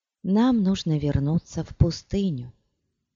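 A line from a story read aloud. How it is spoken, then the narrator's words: Quiet. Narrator (Russian): негромко сказала она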